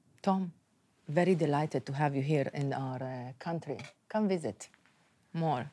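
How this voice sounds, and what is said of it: Gentle put-on Arabic accent. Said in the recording (Hebrew): “מבטא ערבי... איכותי כזה. כי הם לא רצו מבטא ערבי כבד, הם רצו מבטא ערבי עדין.”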